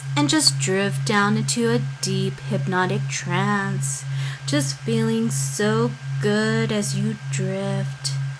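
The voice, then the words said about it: Soft, slow, relaxing hypnotic voice. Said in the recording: “my voice is just so relaxing”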